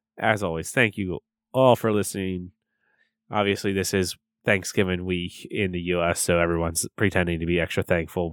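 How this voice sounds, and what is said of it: Hoarse, worn-out voice. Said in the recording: “my voice is completely shot at this point”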